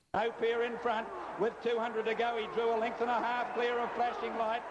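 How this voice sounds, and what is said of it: Imitates another person's race-calling voice. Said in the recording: “my best Bill Collins impersonation ... You do it as good as Bill does. ... Better than Bill.”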